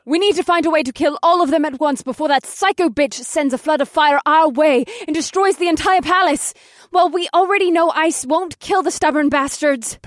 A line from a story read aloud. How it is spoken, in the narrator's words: Penelope screamed